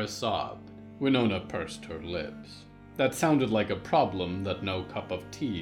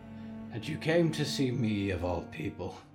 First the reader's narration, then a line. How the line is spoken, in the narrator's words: Winona sighed